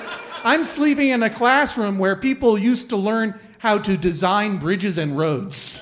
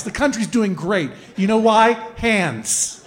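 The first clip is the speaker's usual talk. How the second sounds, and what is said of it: Sarcastic delivery. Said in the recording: “I'm being sarcastic.”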